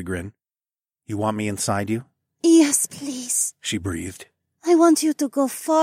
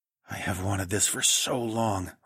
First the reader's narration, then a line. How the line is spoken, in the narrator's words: I whispered